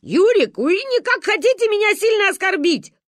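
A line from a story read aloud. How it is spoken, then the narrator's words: Shouting. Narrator (Russian): кричал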